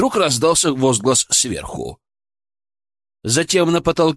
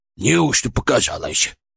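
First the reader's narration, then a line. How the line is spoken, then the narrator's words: Old man muttering. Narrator (Russian): пробормотал старик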